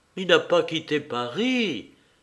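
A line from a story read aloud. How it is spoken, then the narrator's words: Exclaiming in recognition. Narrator (French): s'écria-t-elle en reconnaissant Thaddée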